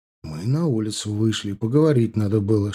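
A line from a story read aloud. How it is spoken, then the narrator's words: Whisper. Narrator (Russian): шепнул я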